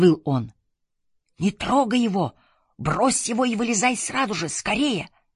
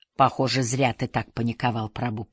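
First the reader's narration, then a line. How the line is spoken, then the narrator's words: Smiling mutter. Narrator (Russian): пробормотал я, улыбаясь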